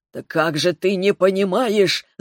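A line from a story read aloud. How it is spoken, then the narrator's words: Growling dragon. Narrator (Russian): зарычал дракон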